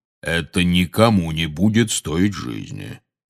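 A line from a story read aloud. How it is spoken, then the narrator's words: Soothing deep voice. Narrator (Russian): успокаивающе пробасил Кингсли Бруствер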